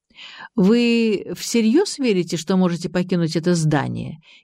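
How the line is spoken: Sarcastic question. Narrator (Russian): язвительно осведомился Геннадий Андреевич

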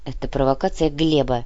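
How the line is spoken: Grumbling. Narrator (Russian): буркнул Кортес

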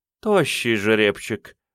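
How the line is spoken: Woman's purr. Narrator (Russian): промурлыкала женщина

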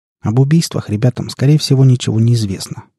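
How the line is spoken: Calm. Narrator (Russian): продолжил я уже спокойно

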